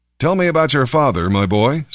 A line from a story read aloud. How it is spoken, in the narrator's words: Saul said